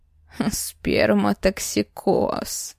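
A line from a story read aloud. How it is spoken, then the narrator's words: Ambiguous tone. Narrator (Russian): Повторил за мной непонятным тоном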